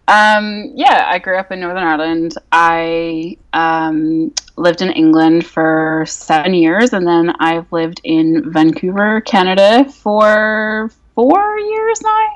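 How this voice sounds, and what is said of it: Unusual mixed accent. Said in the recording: “my like weird accent ... the Northern Irish comes out when I'm angry or drunk or tired”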